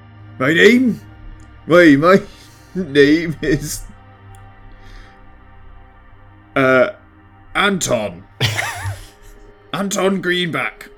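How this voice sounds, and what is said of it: Put-on Norfolk fisherman accent. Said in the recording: “I didn't expect him to be from the south / Norfolk ... I'm trying to just do a fisherman's accent”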